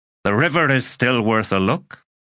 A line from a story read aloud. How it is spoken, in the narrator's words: he said